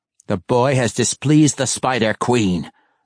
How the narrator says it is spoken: Malice growled, openly enraged and tired of Zack's sarcasm

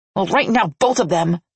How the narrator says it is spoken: she snarled

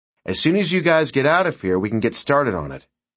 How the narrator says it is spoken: Bobby said

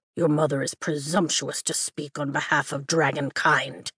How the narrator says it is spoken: Taryn mutters

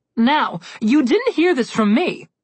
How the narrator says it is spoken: the harp said excitedly, with gossip in her eyes

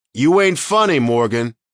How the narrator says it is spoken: he shouted

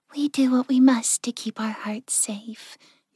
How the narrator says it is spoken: Yukiko said softly

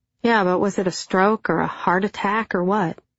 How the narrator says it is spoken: I prodded gently

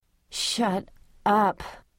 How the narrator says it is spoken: said wearily

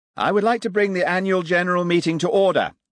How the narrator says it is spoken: shouted Maxwell

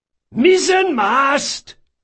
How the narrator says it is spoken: bellowed Caldris

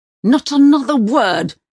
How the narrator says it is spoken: he roars with a booming sound inside the car

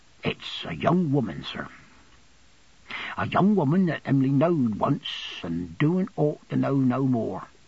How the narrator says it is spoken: lowering his voice and speaking very gravely

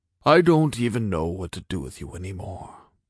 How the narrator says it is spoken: he said faintly

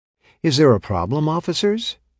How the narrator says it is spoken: asked sweetly

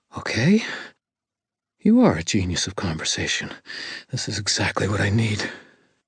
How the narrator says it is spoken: she gasped

